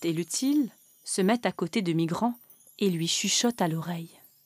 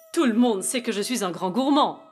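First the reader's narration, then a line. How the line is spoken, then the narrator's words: Exclaiming. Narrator (French): s'exclame le Père Noël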